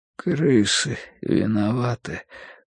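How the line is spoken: Sudden mutter. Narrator (Russian): пробормотал вдруг Бадри

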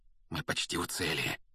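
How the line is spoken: Sudden feverish whisper. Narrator (Russian): вдруг лихорадочно зашептал Рон

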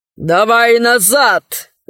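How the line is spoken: Growl. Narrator (Russian): зарычал он

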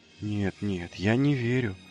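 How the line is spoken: Breathless. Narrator (Russian): выдохнул он

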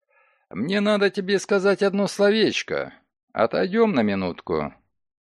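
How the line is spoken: Said quite calmly. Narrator (Russian): Догерти вполне спокойно сказал

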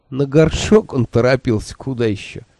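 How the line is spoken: Snorted. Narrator (Russian): фыркнул Хехель

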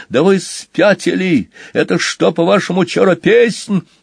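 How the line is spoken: Shout over frantic playing. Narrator (Russian): Банкан, неистово играя, крикнул друзьям

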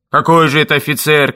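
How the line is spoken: Shouting nearby. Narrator (Russian): кричали совсем рядом

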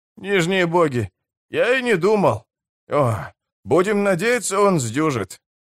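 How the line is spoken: Hoarse rasp. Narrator (Russian): прохрипел даруджиец

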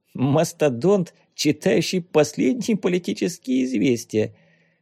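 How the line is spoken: Laughing. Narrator (Russian): рассмеялся Ванюшка

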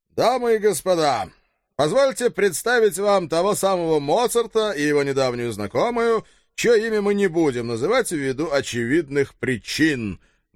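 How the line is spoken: Loud announcement. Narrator (Russian): громко оповестил папочка

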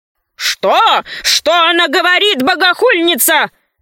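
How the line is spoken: Shouting. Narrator (Russian): закричал вкушец Клоп Небесный

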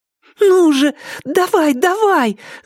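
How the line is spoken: Woman shouting. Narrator (Russian): закричала Сара

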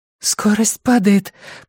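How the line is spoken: Whispering. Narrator (Russian): прошептала Эмма

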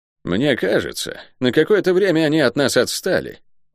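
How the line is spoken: Curt, unpleasant male voice. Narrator (Russian): бросил невысокий, крепко сбитый мужчина с плутоватыми глазами и неприятным голосом

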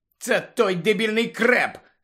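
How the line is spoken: Said angrily. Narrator (Ukrainian): сердито сказала Анджеліна

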